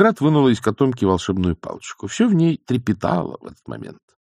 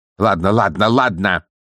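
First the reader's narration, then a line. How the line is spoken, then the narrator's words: Barking, woman. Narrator (Russian): рявкнула она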